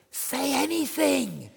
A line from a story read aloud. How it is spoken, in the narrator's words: she whispered